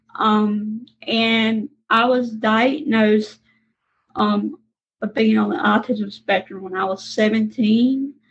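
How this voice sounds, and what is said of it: Southern US (Mississippi) accent. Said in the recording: “I am from Mississippi, as you can tell from my Southern accent.”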